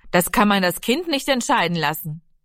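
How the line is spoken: Calling out, interrupting. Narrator (German): Vater Lenzen rief dazwischen

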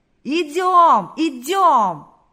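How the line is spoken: Crowd shouting. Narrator (Russian): Закричали все, кто еще держался на ногах

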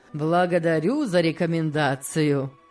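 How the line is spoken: Laughing. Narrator (Russian): рассмеялся Сен-Клер

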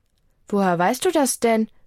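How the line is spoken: Plain question. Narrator (German): fragt

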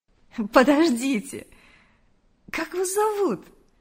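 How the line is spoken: Almost laughing. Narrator (Russian): Чуть не рассмеялась Мария

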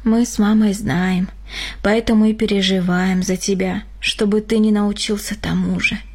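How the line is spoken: Sigh. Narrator (Russian): вздохнул Григорий

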